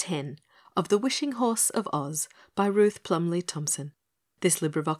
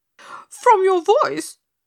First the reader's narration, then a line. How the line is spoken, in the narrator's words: screamed Pigasus